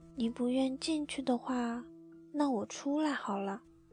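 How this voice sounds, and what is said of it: Soft, gentle, frail voice. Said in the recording (Chinese): “用柔弱的声音说”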